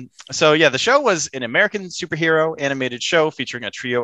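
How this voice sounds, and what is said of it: Usual voice. Nothing is said of it.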